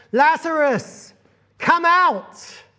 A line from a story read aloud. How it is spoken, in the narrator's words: he shouts